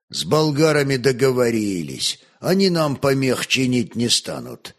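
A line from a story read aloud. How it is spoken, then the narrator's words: Plain. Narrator (Russian): ответил князь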